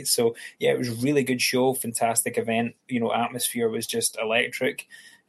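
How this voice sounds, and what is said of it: Scottish accent. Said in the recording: “I've got a Scottish accent”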